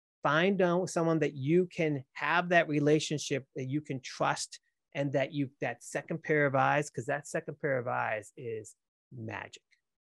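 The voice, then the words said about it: Boston accent. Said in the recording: “Hearing the Boston accent again... I can't change my accent.”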